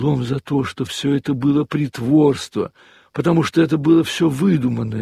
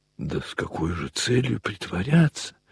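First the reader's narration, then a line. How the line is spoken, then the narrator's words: Quiet. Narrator (Russian): тихо сказала Варенька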